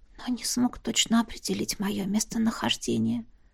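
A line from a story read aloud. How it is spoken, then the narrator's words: Whisper. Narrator (Russian): прошептала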